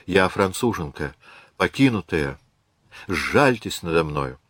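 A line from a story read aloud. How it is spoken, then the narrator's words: Hopeless whisper. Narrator (Russian): Без особой надежды прошептала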